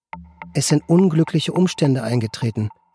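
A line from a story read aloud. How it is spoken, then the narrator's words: Plain. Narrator (German): sagte sie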